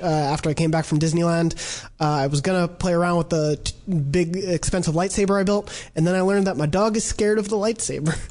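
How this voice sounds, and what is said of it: Sick-sounding voice. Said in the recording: “as you may hear from my voice, been a little sick”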